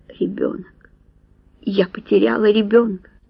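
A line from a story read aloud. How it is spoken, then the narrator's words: Breathless mutter. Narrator (Russian): Касси, задохнувшись, пробормотала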